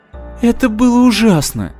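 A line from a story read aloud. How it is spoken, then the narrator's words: Half-voiced moan. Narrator (Russian): простонала Майра в полголоса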